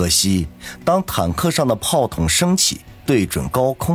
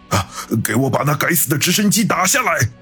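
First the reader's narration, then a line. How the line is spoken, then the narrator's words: Furious roar. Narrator (Chinese): 李九气急败坏，大吼说道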